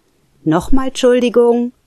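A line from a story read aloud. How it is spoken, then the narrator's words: Calling out again. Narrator (German): rief die Stimme erneut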